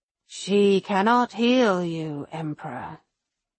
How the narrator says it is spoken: the Nightbringer says, in his deep, unsettling voice

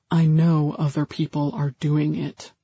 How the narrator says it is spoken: One woman said in a conspiratorial tone

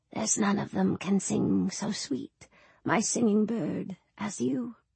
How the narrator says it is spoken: whispered in her ear

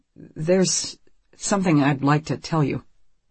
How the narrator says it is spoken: Marco says nervously

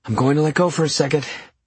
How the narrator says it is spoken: I gasped

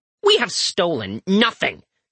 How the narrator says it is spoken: Eric snaps

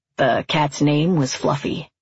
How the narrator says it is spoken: he said

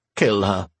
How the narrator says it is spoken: Sai said coldly

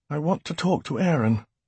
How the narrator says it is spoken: he murmured

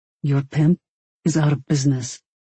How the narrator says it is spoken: Barclay said in a low, infuriated voice

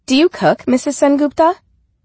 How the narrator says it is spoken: Rebecca asked brightly

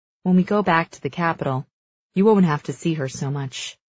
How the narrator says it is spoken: he murmurs

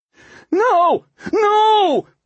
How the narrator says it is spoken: Waxy yelled in desperation

